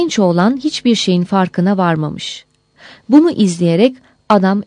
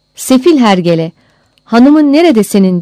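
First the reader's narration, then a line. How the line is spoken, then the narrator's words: Shouted. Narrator (Turkish): diye haykırmış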